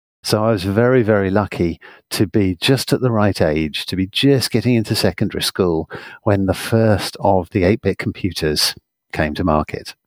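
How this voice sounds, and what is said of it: British English accent. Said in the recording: “as you can probably tell by my accent, I'm from the United Kingdom.”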